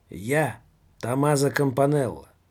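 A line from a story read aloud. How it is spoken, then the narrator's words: Loud announcement. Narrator (Russian): громко объявила одна из тех масок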